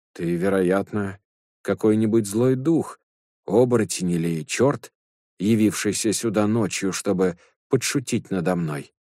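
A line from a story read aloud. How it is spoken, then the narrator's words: Plain. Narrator (Russian): сказал Трипитака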